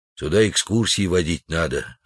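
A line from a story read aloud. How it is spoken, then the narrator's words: Plain. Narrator (Russian): ответил Удалов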